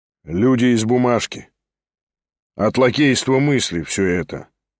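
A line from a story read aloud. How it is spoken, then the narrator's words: Calm remark. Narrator (Russian): спокойно заметил Шатов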